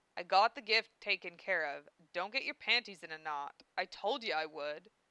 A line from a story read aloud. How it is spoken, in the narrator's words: Val growled